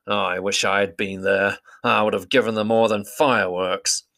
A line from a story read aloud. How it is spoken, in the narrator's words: muttered